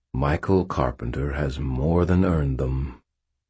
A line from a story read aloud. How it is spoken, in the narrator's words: Uriel said, his voice warm